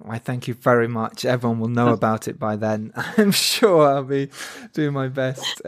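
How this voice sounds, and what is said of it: English accent. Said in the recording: “So cool to hear an English accent, too.”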